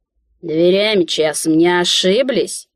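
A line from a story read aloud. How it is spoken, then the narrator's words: Disrespectful grumbling. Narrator (Russian): Без малейшего намека на почтение пробурчал он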